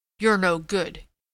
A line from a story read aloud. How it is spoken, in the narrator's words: he said roughly